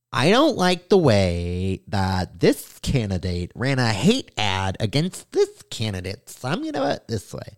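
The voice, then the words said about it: Imitates a teenage boy's voice. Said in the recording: “my impression of a young Asian boy. That's how they talk. A 16-year-old Asian boy”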